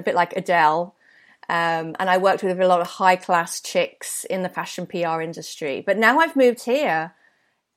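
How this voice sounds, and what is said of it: British London accent. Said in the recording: “Sophie with a British accent ... I had a real London accent ... I have a British accent”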